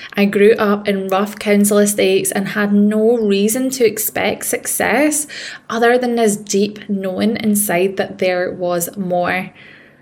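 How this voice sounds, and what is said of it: Scottish accent. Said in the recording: “If you can't tell by the accent, I am a Scottish woman.”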